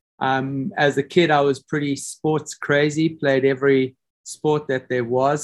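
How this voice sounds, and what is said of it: South African accent. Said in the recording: “as people may have known from my accent, I'm South African. A lot of people mistake me for being a Kiwi from New Zealand”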